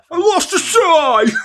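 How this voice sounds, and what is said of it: Impression of a cartoon character's voice. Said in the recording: “What a good impression that is... That's so good.”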